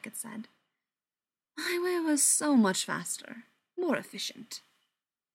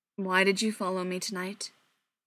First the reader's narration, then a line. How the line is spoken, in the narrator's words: Mike asked, his voice flat as he worked to keep his emotions under control